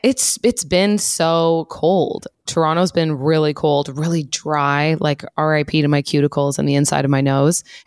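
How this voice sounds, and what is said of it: Sick, hoarse, weakened voice. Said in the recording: “as you can hear, ooh, I'm a bit sick. I lost my voice... Whenever I get sick, I lose my voice”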